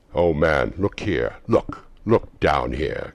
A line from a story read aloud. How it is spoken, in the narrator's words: exclaimed the ghost